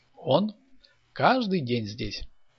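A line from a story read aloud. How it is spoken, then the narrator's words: Laughing. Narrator (Russian): засмеялась Татьяна Андреевна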